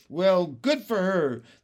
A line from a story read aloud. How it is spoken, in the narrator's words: the cops cried out